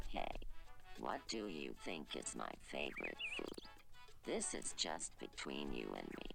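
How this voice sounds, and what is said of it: Very deep, smooth low male voice. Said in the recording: “why he sounds like a Barry White”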